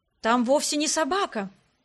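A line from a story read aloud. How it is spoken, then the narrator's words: Exclaiming priest. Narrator (Russian): воскликнул священник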